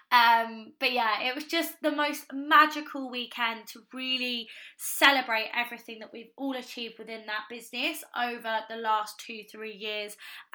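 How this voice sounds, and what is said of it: Croaky, hoarse voice. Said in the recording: “my voice is a little bit croaky today”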